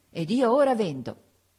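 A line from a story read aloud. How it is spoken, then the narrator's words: Triumphant exclamation. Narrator (Italian): esclamai trionfalmente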